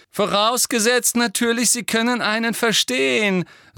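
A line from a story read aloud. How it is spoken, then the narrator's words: Loud. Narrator (German): sagte Malfoy laut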